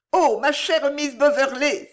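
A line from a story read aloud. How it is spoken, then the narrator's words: Exclaimed. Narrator (French): s'écria Henriette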